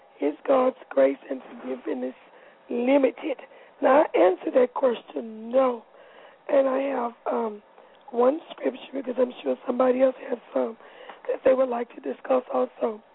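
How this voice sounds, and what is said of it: Hoarse, worn-out voice. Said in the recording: “Excuse my voice. I preached on Friday night, and I guess I preached it away.”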